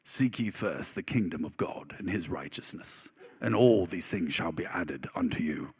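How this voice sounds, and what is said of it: Put-on British Shakespearean accent. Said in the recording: “the guy had a British accent ... Shakespearean accent”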